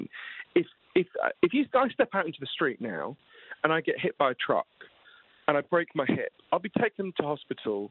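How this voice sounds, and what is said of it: Posh British accent. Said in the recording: “in Britain, where I'm from, as you can tell from my weird Downton Abbey accent”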